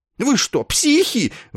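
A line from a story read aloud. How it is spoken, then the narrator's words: Shrieked by a frightened colonel. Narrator (Russian): взвизгнул, отступая, побледневший полковник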